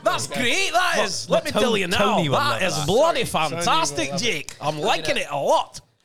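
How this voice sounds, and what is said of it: Strong put-on Scottish accent. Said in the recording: “That's a good accent. ... I think that was a strong Scottish accent. ... Scottish.”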